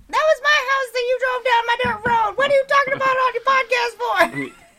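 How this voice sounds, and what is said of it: Twangy put-on Southern accent. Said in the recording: “southern accents? ... Oh, is that a southern accent? ... Talking in like a twangy type voice.”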